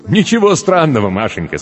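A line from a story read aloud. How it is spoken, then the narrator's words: Laughing. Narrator (Russian): смеялся Земляникин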